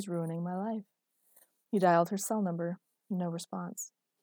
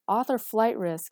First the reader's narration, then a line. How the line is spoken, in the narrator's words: he yelled back to him